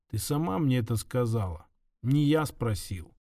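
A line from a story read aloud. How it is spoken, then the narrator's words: Quiet, calm. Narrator (Russian): тихо произнес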